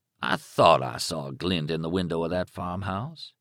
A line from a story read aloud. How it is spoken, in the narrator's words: said, and chuckled